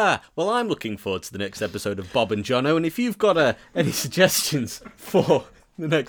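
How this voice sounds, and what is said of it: Usual voice. Nothing is said of it.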